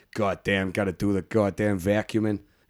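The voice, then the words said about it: Put-on New York accent. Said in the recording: “I love that accent, by the way... The right accent... like Chicago. That's more like a bit, but like New York... doing that accent... it's one of my favourite accents”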